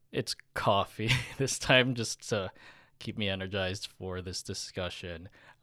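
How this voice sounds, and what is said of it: Voice sounds congested from a cold. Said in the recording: “how my voice sounds that I'm still recovering from this 24-hour cold”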